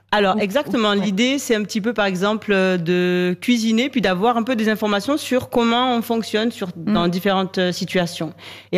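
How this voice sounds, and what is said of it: Speaks with a slight accent. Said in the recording (French): “Mon Dieu, comme j'aime comme elle parle. ... Mais avec ce petit accent”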